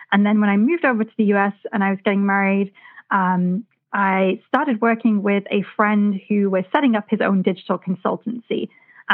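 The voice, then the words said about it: British accent. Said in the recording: “as you can tell from my accent, I'm, first of all, not originally from the U.S.... I started off my career back in the UK”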